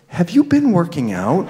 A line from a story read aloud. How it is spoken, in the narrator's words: said in a half whisper